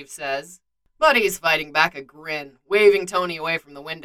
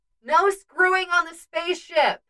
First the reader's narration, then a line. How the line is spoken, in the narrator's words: Jane's voice shouts from somewhere